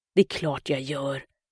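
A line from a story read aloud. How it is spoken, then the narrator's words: Muttered. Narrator (Swedish): muttrade Mackan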